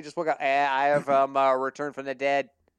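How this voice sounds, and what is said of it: Bad put-on Boston accent. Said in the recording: “with a bad Boston accent that looked like JFK”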